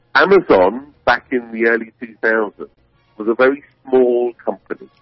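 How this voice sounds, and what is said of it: British English accent. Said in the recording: “my accent isn't a local one ... I moved over from the UK”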